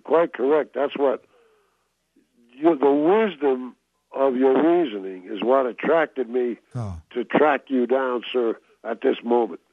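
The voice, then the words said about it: New York accent. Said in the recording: “from my accent, you probably know I came out of New York originally... It's a giveaway.”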